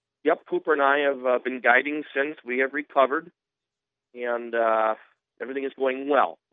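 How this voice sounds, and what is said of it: Rough, sick-sounding voice. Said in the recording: “as you can tell by my voice, it's that time of the year. sick again. ... you sound a little rugged right now. ... I'm sick again”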